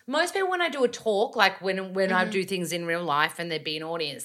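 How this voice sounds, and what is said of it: Australian accent. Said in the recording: “I didn't expect you to sound like a bogan ... My accent isn't as bogan now ... an Australian accent ... I probably sound less ocker”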